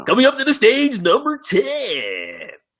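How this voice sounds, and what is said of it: Club DJ announcer voice. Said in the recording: “I sound like a little bit of a Tootsie's DJ now.”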